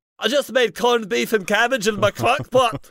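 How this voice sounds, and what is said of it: Strained, choking Shrek-like cartoon voice. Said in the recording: “how Shrek would say ... That is not a safe accent for you to do. You were choking.”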